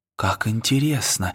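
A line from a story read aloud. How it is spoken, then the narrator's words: Barely audible whisper. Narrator (Russian): еле слышно прошептал Фил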